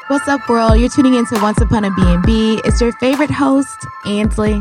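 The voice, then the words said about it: Atlanta accent. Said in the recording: “my accent didn't pronounce the S at the end of host ... this Atlanta accent”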